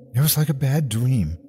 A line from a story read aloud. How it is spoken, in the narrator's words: Aunt Lena whimpered into a Channel 5 microphone